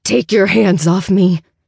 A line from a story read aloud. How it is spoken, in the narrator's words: I growl, I've never heard my own voice sound so wild and desperate